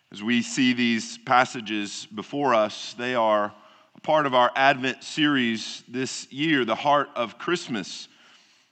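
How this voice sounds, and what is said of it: Weak voice, head cold. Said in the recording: “my voice is not quite as strong as typical ... I'm going through a little head cold”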